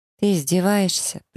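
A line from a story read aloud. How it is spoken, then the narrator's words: Weary. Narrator (Russian): произношу устало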